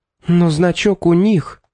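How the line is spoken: Exclaimed. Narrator (Russian): воскликнула мисс Фитцджеймс

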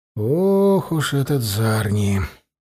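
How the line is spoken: Grumbling. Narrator (Russian): проворчал Учай

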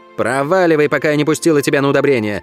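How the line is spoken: Barked. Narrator (Russian): рявкнула

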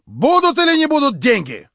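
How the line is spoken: Impatient, angry, commanding shout. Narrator (Russian): в злобном нетерпении как бы властно крикнул он на Ставрогина

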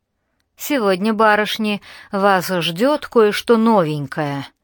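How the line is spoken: Captain's muffled rumble. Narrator (Russian): глухо пророкотал капитан Склоу

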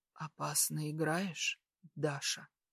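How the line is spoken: Hoarse aroused exhale. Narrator (Russian): Выдыхает хрипло, эти его игрища возбудили мужчину не на шутку

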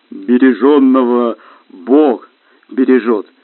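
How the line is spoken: Said, then deep laughter. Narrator (Russian): сказал снежный человек и расхохотался басом

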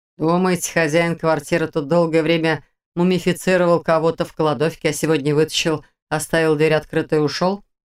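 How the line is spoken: Scoffing. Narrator (Russian): хмыкнул Карпов

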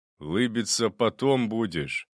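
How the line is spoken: Haughty cop, through teeth. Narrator (Russian): Полноватый мент с надменным выражением лица бросил сквозь зубы

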